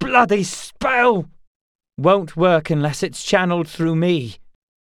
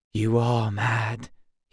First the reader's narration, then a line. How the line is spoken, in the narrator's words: he whispered